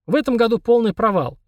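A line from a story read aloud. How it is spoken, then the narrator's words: Cheerful, uncle. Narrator (Russian): весело сказал дядя Миша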